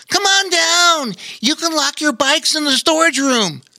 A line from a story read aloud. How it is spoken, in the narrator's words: Bobo Chico ... hollered